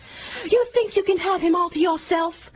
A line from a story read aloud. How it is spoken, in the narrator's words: screamed